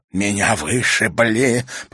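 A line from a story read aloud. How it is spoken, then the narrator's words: Hissed. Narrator (Russian): прошипел Бирулин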